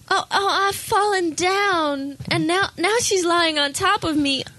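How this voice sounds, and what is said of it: Put-on southern accent. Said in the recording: “You get a southern accent.”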